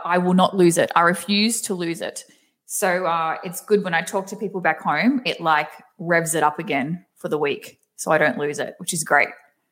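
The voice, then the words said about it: Thick Australian accent. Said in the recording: “I have tried so hard to keep my Aussie accent because I do have a very thick accent”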